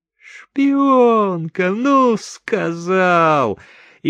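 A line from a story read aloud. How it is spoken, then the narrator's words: Laughing. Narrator (Russian): Чика даже рассмеялся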